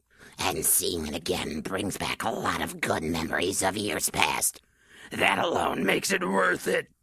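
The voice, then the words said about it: Hoarse, froggy throat. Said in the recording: “I have a frog in my throat.”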